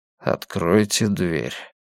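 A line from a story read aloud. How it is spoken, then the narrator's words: Muttered. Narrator (Russian): пробормотал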